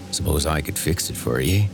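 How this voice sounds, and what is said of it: Low voice, thick West Country accent. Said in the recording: “The voice was low and metallic ... a horribly thick West Country accent.”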